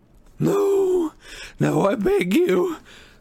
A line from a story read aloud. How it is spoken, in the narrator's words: sobbed Xenophilius